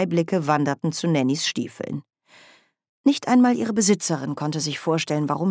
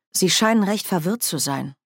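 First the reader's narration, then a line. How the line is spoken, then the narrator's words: Plain. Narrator (German): sagte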